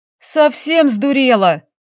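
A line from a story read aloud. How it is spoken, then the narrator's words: Woman friend barking. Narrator (Russian): рявкнула подруга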